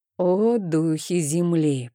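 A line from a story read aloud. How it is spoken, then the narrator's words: Low, eerie voice. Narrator (Russian): произнес Рейн низким голосом, который звучал довольно жутко во тьме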